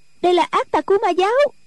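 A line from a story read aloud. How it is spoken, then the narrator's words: Shrill cry. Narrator (Vietnamese): một Nico the thé kêu lên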